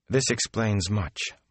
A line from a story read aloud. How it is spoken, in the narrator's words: Moraine said softly